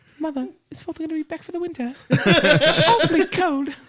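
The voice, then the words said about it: English little girl accent. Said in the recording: “the only English accent I can do is, like, of a little kid, mostly, like, a little girl in, like, the 18th or 16th century, like, England”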